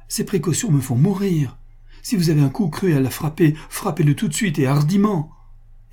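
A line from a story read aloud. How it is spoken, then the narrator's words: Exclamation. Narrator (French): s'écria Pascal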